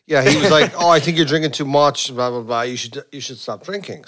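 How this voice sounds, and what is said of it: Irish accent. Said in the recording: “another Irishman... We hear the accent.”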